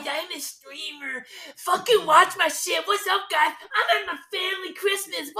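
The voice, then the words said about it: Mocking impression of a bratty rich kid. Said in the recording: “It was a classic rich kid stereotype... I don't really know what that impression was”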